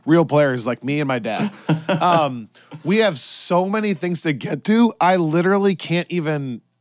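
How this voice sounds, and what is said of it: Hoarse, strained lost voice. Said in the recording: “why does your voice sound so bad? ... I've already lost my voice”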